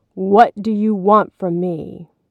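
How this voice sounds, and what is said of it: Booming voice. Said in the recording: “in a booming voice”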